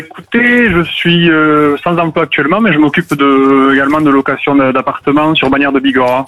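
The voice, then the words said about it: French Pyrenees regional accent. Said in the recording (French): “petit accent des Pyrénées que j'entends”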